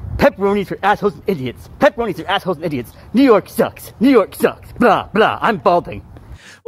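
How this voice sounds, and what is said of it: Pretty good impression of Maddox. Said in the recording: “my impression of Maddox ... it's a pretty good impression”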